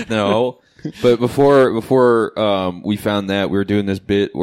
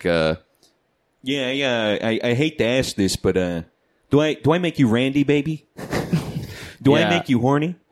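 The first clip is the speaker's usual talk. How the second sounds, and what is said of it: Imitates another person's voice. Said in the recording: “you just do Alan Alda's voice ... something in Alan Alda voice because that's your go-to”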